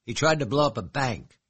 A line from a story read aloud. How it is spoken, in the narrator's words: she snapped